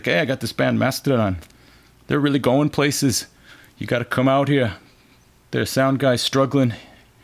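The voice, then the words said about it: Attempted Scottish accent imitating someone. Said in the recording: “What kind of accent is that supposed to be? ... He's Scottish. ... He's trying to do Curly, but it's hard ... that's not really the way he talks”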